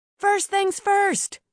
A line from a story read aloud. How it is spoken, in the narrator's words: Mia shouted